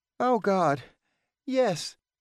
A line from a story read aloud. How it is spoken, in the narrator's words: answered, panting heavily